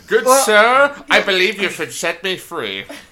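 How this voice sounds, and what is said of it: Put-on posh English accent. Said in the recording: “With an English accent.”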